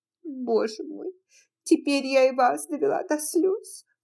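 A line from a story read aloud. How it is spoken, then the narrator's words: Relieved sob. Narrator (Russian): всхлипнула тетушка Питтипэт с чувством облегчения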